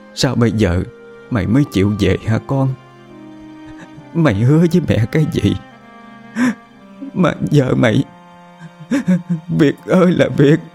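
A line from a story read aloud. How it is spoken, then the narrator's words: Sobbing. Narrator (Vietnamese): bà Cẩm nức nở lên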